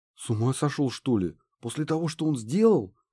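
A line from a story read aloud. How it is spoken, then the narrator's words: Slightly frightened. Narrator (Russian): Немного испуганно ответил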